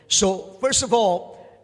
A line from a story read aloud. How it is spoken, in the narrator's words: they shouted